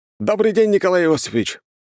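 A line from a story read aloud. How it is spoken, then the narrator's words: Young man barking loudly. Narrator (Russian): гаркнул молодой человек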